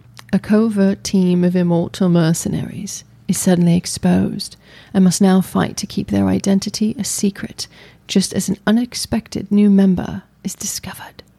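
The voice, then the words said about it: Put-on British accent. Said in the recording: “read the synopsis in a British accent”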